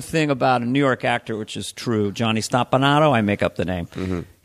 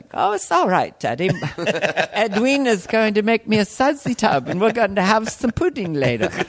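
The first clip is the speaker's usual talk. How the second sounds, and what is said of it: Put-on dainty British child's accent. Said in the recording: “the kid actually was developing a British accent ... You sound kind of dainty.”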